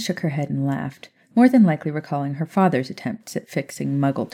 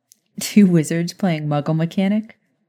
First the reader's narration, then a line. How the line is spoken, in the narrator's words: Maya chuckled